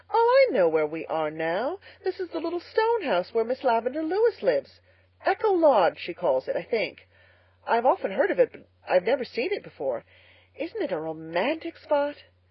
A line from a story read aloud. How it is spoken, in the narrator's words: Diana exclaimed